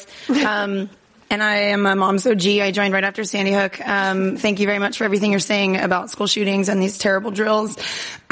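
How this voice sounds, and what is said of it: Hoarse, nearly lost voice. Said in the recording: “Sorry, I lost my voice.”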